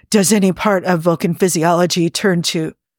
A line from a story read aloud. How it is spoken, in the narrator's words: said Spock hoarsely